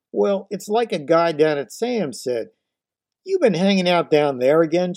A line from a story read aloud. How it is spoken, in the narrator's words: barked